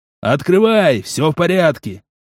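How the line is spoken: Shouted. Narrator (Russian): прокричал он

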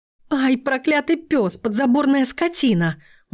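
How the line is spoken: Howling. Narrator (Russian): взвыла Лиза

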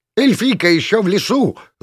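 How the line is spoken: Donkey's vicious, insolent yell. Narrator (Russian): злобно и нагло заорал осел

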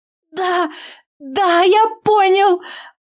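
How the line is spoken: Young lad howling. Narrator (Russian): Взвыл паренек

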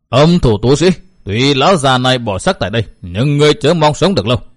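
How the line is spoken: Old woman roaring. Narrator (Vietnamese): Lão bà gầm giống nói

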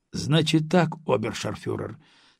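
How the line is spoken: Calm. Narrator (Russian): спокойно начал русский

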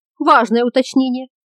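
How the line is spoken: Nervous giggle. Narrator (Russian): нервно хихикнула Йока

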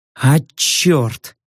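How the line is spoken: Through clenched teeth. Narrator (Russian): сквозь зубы процедил

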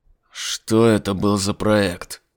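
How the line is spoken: Hiss. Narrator (Russian): прошипел Айзек

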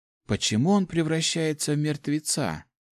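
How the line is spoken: Barely audible hopeless question. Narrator (Russian): едва слышно спросила Жанна, не надеясь, что ей кто-то ответит

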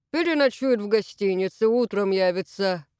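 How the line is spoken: Snorted. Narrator (Russian): фыркнул Лопушкин

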